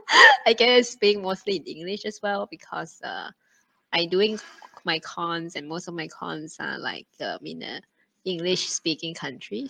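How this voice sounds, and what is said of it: Singaporean English accent. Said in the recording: “I can hear like a lot mm. of the uh like the Singaporean accent ... you don't sound Thai to me”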